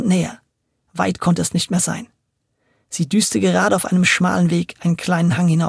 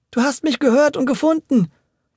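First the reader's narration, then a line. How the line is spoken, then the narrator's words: Called joyfully. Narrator (German): rief Audencio voller Freude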